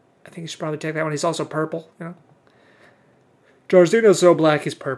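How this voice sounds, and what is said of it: Usual voice. Nothing is said of it.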